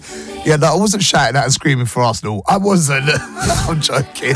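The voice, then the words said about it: Croaky, hoarse voice. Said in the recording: “my voice is extra croaky this morning. Extra croaky.”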